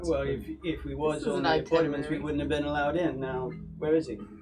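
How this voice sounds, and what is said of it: Character voice with thick accent. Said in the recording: “is my accent so thick you just can't understand me?”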